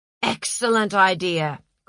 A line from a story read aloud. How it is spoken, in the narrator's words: cried Napoleon